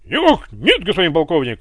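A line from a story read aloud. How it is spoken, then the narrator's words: Barked very loudly. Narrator (Russian): рявкнул Иван, да так громко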